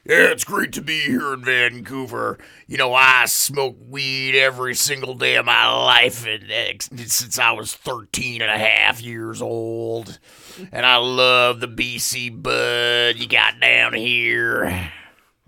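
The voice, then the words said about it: Imitates another person's voice. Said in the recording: “That's my Phil Anselmo impression.”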